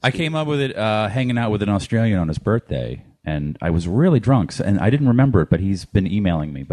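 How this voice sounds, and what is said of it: Usual voice. Nothing is said of it.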